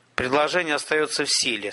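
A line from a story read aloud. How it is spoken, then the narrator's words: Calm. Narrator (Russian): спокойно сказал он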